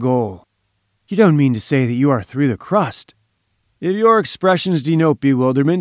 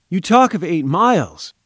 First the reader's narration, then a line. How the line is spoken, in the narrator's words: I cried